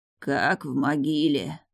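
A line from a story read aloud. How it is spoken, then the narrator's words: Old man's muffled whisper. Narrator (Russian): глухо прошептал старик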